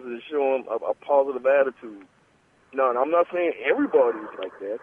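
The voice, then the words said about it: Slight Gullah Lowcountry accent. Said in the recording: “I am sure you hear that dialect. It's that gullah. Yes, that little bit of gullah touch on there.”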